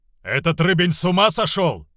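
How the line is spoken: Yelling. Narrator (Russian): вопил избранный кузней

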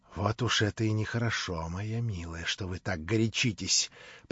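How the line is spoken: Slightly trembling, gloating. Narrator (Russian): произнес он несколько дрожащим голосом от нетерпеливого наслаждения видеть поскорее эффект своей обиды

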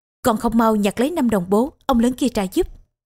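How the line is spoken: Barked shout. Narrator (Vietnamese): đánh giọng quát

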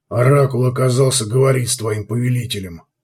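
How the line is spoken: Grumble. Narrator (Russian): пробурчал Гуго

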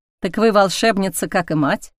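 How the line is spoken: Plain question. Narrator (Russian): спросил чародей

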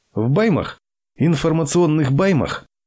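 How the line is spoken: Uncontrollable frightened laughter. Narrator (Russian): Игорь чувствовал, что не в силах остановить смех и испугался, но продолжал смеяться

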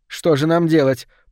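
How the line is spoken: Woman shouting. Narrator (Russian): прокричала она

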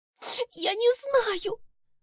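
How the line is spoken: Sobbing, tearful. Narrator (Russian): всхлипнула Маргоша, и по ее щекам покатились крупные слезы

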